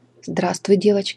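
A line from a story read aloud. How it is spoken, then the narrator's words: Rolling bass, old man. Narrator (Russian): сказал старик раскатистым басом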